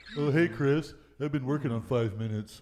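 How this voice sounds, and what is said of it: Imitates another person's voice. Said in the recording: “my Cankles impersonation”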